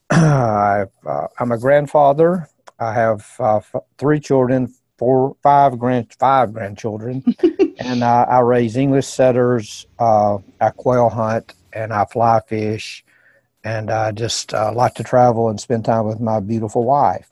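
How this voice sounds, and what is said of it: Southern American accent from Alabama. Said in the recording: “I'm in Birmingham, Alabama, not Birmingham, England, as you can tell from the accent.”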